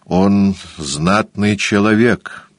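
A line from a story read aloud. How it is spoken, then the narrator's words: Gloomy. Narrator (Russian): сказал Джеймс мрачно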